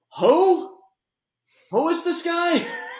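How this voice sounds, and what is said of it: Impression of confused wrestling fans. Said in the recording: “do my best impression about 90% of wrestling fans”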